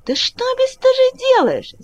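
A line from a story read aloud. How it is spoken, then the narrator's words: Old woman shouting. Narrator (Russian): закричала зеленая старушка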